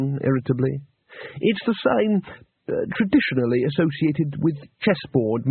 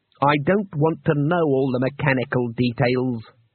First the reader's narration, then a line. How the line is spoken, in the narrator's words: growled Trumon